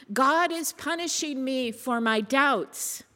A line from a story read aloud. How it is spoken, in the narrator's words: Squirrel wails to the heavens